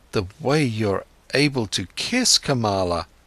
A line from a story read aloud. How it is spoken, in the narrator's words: stammered Siddhartha